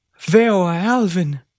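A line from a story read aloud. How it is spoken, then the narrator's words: Father exclaiming after pause. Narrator (Spanish): Tras una pausa, Joseph padre exclamó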